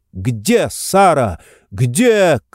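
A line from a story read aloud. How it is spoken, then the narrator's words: Shout. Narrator (Russian): крикнула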